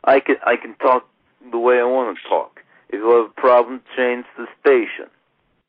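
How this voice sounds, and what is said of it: Poor Mike Tyson impression, sounds Russian. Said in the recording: “Mike Tyson impression ... hot mess ... that was Mike Tyson? ... that's double hot mess ... Mike, that sounds nothing ... That guy was like Russian”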